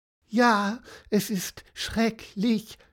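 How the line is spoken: Whining, complaining. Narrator (German): jammerte Cassiopeia weiter

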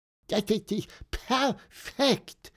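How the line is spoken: Squeaked. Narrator (German): piepste Pieper

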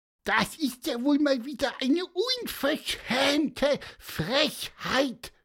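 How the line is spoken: Squeaky. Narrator (German): piepste Pieper

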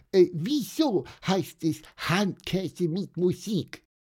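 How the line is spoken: Squeaking. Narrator (German): piepste Pieper

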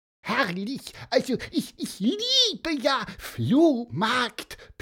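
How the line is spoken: High squeaky voice. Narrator (German): piepste er

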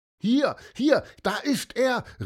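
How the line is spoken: Called out. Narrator (German): rief Lukas

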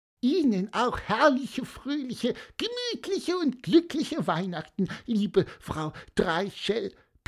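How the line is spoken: Squeaking. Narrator (German): piepste Pieper

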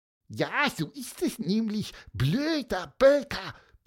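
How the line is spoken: Squeaky voice. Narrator (German): piepste Pieper

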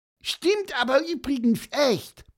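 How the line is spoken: Interrupting squeak. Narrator (German): piepste Pieper dazwischen

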